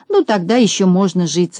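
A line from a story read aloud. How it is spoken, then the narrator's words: Relieved sigh. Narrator (Russian): с облегчением вздохнул Пончик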